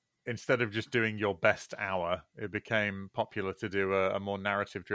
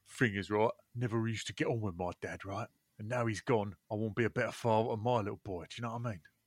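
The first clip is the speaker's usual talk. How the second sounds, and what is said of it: Impression of Russell Kane. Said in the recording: “That is a very good impression of Russell Kane's Edinburgh Award-winning show.”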